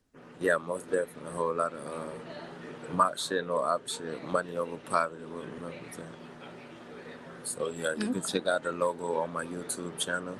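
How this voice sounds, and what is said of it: Georgia (US Southern) accent. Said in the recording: “I'm from Georgia, actually. ... I'm picking up an accent”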